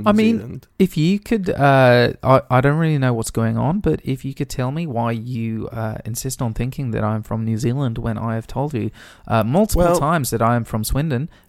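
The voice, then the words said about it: New Zealand accent. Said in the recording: “your voice... sound like you've got a New Zealand accent.”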